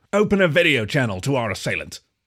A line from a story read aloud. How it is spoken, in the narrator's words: the collie barked